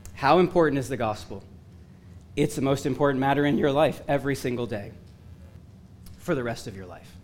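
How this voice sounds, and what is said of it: Hoarse, strained, failing voice. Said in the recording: “I'm losing my voice again”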